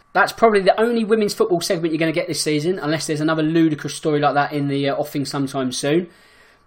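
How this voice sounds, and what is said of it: Slightly hoarse voice. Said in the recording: “my voice is getting a bit hoarse”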